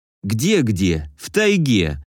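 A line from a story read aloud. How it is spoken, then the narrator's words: Angry grumble. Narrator (Russian): Зло проворчал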